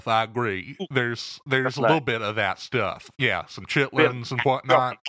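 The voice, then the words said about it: Southern US accent, Eastern Texas. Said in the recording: “My accent is kind of an amalgam of several places, but you can probably place it to Eastern Texas primarily ... Southern lilt in there ... a little bit more Bible Belt in my brogue”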